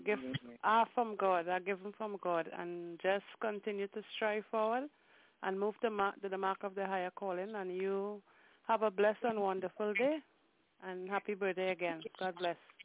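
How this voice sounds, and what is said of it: Speaks with a beautiful accent. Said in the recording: “that beautiful accent”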